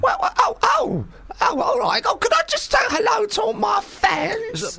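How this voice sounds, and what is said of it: Imitates another person's voice. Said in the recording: “I can just do an impression of my mum”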